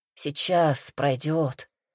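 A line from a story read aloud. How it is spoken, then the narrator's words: Muffled male mutter. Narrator (Russian): глухо пробормотал мужчина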